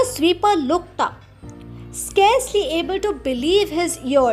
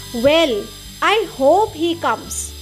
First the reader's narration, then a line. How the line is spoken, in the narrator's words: the sweeper said